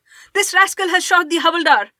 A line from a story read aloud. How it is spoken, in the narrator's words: A soldier shouted